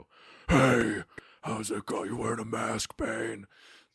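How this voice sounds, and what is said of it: Imitates Batman's voice. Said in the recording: “The Christian Bale Batman sounds like he's just making fun of everybody with his voice ... that was my Batman impression.”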